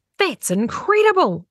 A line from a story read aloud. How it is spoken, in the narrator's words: exclaimed Winky